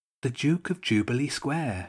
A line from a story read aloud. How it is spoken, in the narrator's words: said quietly